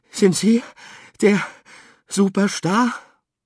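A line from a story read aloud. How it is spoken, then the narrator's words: Breathless panting. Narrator (German): Atemlos keuchte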